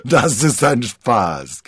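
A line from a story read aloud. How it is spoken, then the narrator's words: Giggling. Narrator (German): kicherte D'Artagnan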